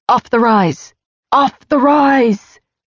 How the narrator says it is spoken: someone shouted

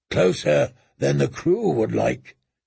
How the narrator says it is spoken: Makoro said in his deep voice

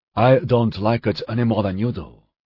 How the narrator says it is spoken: the Ultra said

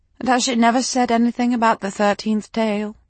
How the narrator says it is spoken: she asked me wistfully

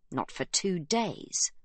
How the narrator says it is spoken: she is told with a sneer

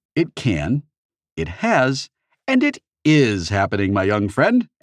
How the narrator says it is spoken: Anorak said cheerfully

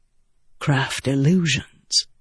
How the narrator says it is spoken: Adolin said softly

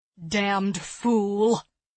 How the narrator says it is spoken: he growled

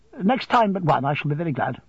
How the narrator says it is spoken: Miss Larkins laughs and says

